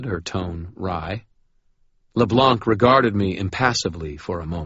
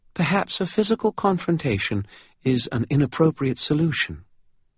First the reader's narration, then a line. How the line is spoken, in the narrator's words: she smiled faintly and said